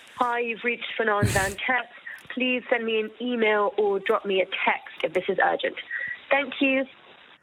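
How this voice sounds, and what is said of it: Very English-sounding English accent. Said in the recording (Dutch): “wat een mooi Engels praat jij ... dat is echt wel heel erg Engels”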